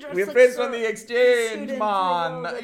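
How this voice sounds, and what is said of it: Bad imitation Jamaican accent. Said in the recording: “this bad Jamaican accent. It's not good at all.”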